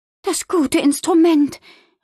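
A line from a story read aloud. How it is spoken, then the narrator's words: Worried exclamation. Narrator (German): rief sie besorgt aus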